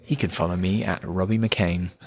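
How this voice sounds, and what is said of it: Smooth radio announcer voice. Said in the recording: “Lovely radio voice there.”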